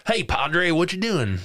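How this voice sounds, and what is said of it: Imitated US Southern accent. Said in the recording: “Uncle Joe sounds Southern. ... Like United States Southern.”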